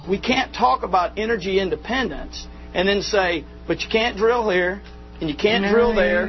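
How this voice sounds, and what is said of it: Southern American accent. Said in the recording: “there are smart people with southern accents, too. ... It's not the southern accent.”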